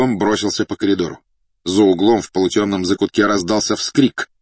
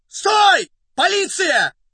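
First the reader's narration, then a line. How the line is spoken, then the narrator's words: Hoarse, agitated shout. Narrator (Russian): осипшим от волнения голосом крикнул Фондорин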